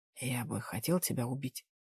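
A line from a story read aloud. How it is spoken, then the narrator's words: Whispered. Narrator (Russian): шепнул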